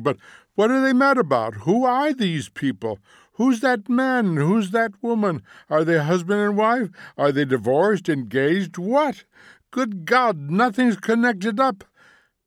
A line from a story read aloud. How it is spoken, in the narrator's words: cried Montague